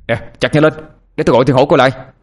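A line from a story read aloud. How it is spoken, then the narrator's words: Shout. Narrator (Vietnamese): hét với đám kia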